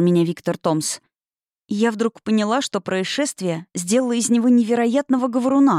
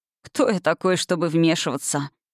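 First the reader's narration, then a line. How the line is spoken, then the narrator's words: Sleepy question. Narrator (Russian): сонно спросил он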